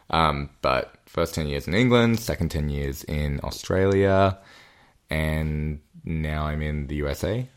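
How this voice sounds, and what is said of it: Australian accent. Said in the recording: “I do predominantly say Australian, hence right. The accent.”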